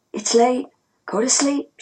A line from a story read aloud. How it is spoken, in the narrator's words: she said to me softly